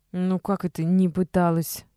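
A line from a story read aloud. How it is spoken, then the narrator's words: Sighing. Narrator (Russian): Полина вздохнула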